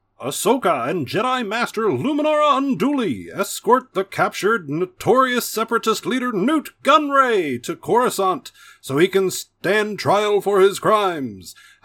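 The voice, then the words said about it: Clone Wars narrator voice. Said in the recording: “I said I was going to do the Clone Wars voice”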